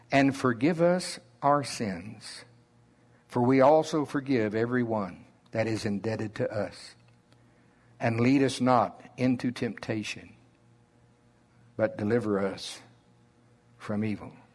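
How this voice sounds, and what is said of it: Slow Oklahoma drawl. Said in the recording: “my slow Oklahoma drawl”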